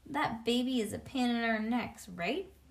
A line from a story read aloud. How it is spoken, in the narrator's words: Mother laughed